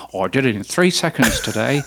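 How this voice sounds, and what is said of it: Imitates another person's voice. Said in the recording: “That's not a Tom Webster impersonation... Yes, it was.”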